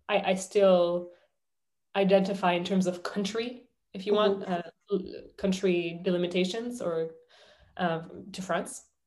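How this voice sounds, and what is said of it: Slight French accent. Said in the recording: “I still have a bit of a French accent”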